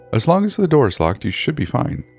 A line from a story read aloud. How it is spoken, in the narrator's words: smiled sweetly